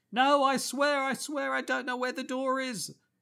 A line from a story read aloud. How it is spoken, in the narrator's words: a man cries out